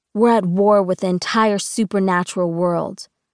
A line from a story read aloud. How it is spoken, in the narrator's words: Dylan says bitterly